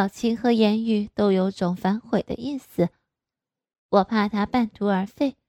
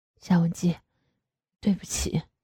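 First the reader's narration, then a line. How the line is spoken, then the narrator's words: Soft pleading. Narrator (Chinese): 轻声的哀求着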